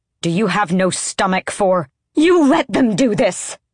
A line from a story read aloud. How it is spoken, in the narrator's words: Asterin bellowed